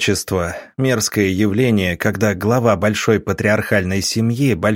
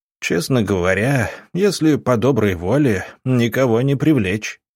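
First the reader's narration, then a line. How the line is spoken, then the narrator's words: Snorting. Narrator (Russian): хмыкнул Гробовский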